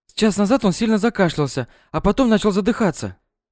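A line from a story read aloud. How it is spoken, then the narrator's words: Rapid chatter. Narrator (Russian): затараторила девушка, что знала Кирилла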